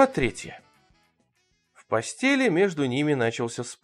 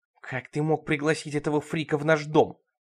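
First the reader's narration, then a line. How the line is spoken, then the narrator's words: Hissing. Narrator (Russian): шипела Бет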